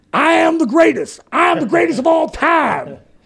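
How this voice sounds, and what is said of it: Imitates another person's voice. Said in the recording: “a very good impression”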